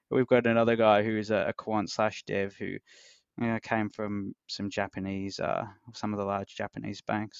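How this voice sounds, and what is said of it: Australian English accent. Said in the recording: “I love your accent, by the way... I don't know too many people from Australia... I don't know if my accent is a lot Australian or a little Australian... It's it's very easy to listen to for sure.”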